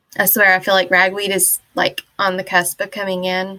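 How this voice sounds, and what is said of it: Slightly nasal, congested voice. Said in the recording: “if I sound a little nasally.”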